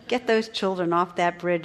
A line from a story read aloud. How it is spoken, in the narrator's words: said the instructor